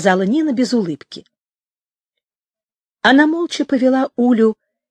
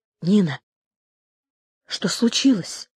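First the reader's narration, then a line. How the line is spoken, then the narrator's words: Quiet question. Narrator (Russian): тихо спросила Уля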